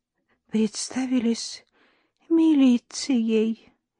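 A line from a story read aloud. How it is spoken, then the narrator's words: Barely audible explanation. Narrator (Russian): еле слышно объяснила она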